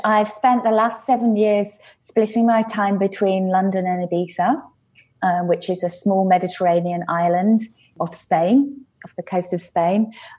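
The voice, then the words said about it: English accent. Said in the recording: “it's wonderful to listen to you in your accent ... I'm English”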